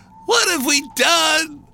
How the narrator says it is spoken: they cried

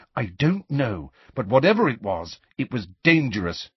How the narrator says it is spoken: said firmly

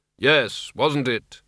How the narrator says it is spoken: he mumbled noncommittally

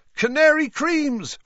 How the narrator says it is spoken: Fred shouted to the excitable crowd

